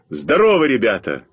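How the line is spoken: Shout. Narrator (Russian): крикнул я муравьям

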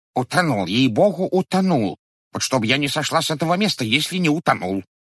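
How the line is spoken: Babbling woman. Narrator (Russian): лепетала толстая ткачиха

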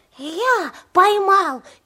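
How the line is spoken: Hedgehog's squeak. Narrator (Russian): пискнул еж

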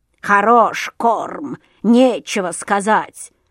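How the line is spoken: Grumbling crow. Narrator (Russian): заворчала ворона

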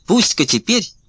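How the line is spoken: Defiant shout. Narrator (Russian): вызывающе крикнула она

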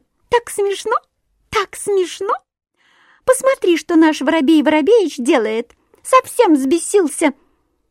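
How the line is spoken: Thin high laugh. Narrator (Russian): Синичка засмеялась тоненьким-тоненьким голоском

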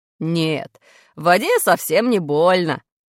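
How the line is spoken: Laughing. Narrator (Russian): смеялся брат

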